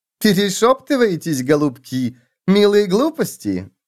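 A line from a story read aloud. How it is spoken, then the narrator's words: Lewd giggle. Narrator (Russian): грязно хихикнула Матильда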